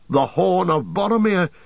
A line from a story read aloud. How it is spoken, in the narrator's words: he cried